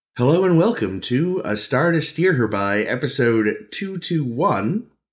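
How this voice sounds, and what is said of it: Crisp, sharp phone voice. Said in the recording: “Prepare for crisp phone voice. ... Prepare for a very sharp hello.”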